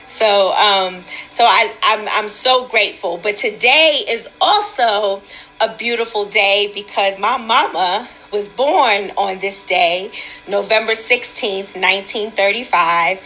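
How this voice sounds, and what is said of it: Slightly hoarse voice. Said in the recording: “my voice is a little hoarse from treatment on yesterday”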